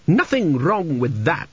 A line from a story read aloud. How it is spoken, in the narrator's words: she snapped